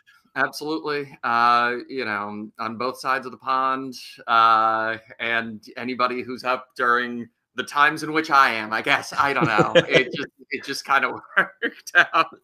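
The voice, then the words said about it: American accent. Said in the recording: “I'm assuming somewhere in America, judging by the accent.”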